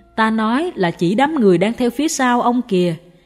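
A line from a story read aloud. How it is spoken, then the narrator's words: Smiling, continuing. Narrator (Vietnamese): Sư phụ mỉm cười nói tiếp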